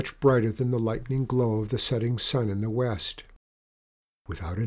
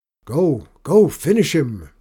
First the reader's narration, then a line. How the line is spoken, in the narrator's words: Benny called out, urging his friend on